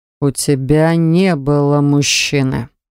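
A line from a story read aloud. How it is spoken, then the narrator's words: Harsh, frightening voice. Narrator (Russian): сказал он жестким и страшным голосом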